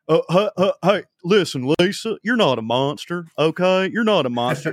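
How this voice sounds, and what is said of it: Dr. Phil impression. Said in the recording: “if you want to do an impression of Trey Crowder, first you have to start by doing an impression of Dr. Phil. Okay. You start there. There's your base.”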